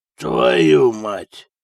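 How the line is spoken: Hoarse wheeze. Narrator (Russian): прохрипел он

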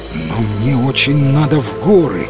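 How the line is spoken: Exclaimed. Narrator (Russian): воскликнул рыцарь

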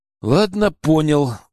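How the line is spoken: Sighed. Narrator (Russian): вздохнул я

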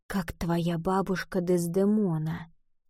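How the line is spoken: Whisper. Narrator (Russian): прошептал

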